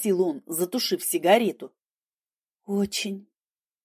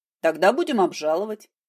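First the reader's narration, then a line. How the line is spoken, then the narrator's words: Calm. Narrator (Russian): спокойно сказал адвокат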